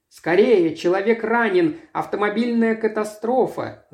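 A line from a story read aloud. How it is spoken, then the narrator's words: Yelling. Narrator (Russian): завопил я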